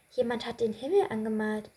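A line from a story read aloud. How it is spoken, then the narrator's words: Very quiet squeak. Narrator (German): piepste ganz leise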